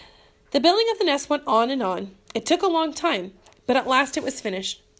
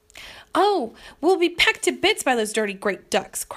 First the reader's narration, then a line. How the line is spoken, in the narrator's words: cried Mrs